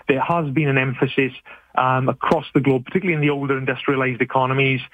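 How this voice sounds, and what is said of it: British accent. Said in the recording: “As you can probably tell from my accent ... I'm from the UK”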